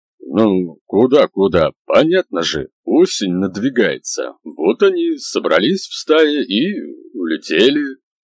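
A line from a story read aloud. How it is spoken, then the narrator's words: Sullen grumble. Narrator (Russian): бурчал Дуся, хмуро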